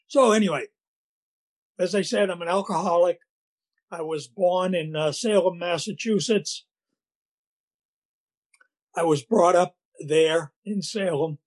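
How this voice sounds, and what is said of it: Boston accent, scratchy voice. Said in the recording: “My voice gets real scratchy ... even through my Boston accent”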